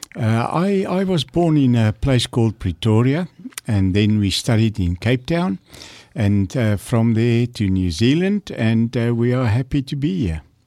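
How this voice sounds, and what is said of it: South African accent. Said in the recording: “you can hear I still have that South African accent.”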